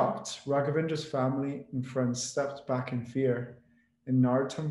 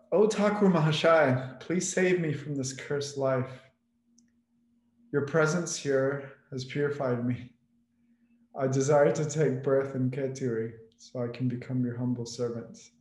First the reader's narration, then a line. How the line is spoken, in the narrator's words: the ghost called out